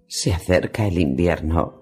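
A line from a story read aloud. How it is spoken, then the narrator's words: Whisper. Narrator (Spanish): susurró ella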